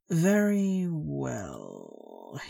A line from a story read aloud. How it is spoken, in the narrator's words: he drawls out, slowly, his voice now becoming a little harder